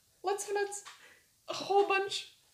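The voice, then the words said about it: Squirrel character voice. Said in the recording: “I'm gonna, like, imitate the squirrel accent.”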